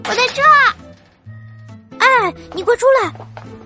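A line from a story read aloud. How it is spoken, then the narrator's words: Happy shout. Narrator (Chinese): 爱爱高兴的大喊着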